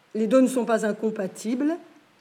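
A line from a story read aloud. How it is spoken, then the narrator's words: Plain. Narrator (French): répondit Sanji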